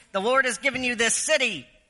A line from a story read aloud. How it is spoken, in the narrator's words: commanded for the people to shout